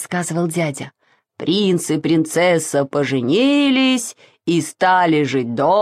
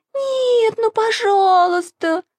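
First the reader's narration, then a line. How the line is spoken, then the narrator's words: Whining. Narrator (Russian): захныкала Маша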